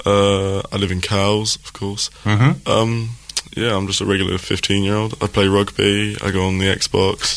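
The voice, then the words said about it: Smooth, rich radio voice. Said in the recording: “you've got a wonderful radio voice... who is that marvellous, silky smooth voice?... That's a tremendous radio voice.”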